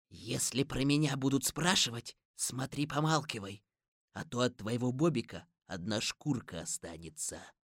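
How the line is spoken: Quiet. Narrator (Russian): Он тихо сказал Лёше

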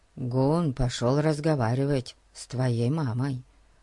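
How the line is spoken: Whisper. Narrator (Russian): прошептал Ларри

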